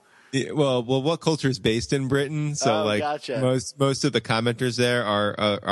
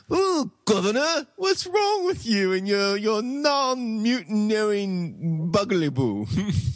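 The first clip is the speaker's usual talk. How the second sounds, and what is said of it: Mock British accent. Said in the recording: “That's my British imitation.”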